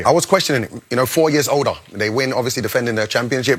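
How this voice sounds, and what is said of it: English accent. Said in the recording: “what a delightful English accent”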